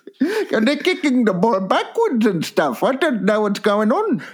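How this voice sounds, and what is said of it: Put-on Indian accent. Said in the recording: “Is that is that a dead set Indian accent?”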